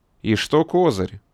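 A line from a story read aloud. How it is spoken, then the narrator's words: Gloomy question. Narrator (Russian): мрачно спросил хозяин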